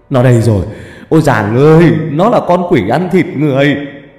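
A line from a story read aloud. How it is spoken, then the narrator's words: Man's scream. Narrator (Vietnamese): Người đàn ông hét lên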